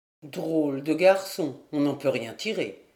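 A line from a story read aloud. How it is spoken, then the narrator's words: Muttering to himself. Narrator (French): murmura Pierre Guivarc en soliloque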